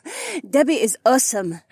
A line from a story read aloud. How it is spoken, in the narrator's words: Haywan laughed